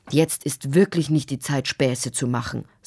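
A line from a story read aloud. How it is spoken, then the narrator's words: Stern father's voice. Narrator (German): sagte ihr Vater streng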